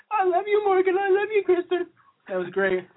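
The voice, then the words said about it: Imitates other people's voices. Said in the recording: “My imitation of them”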